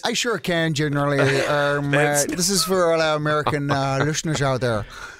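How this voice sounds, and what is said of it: Put-on American accent. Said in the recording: “Can you do it in American accents, please?”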